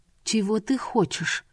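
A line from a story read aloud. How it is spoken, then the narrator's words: Quiet words. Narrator (Russian): негромко произнесла Гюльбахар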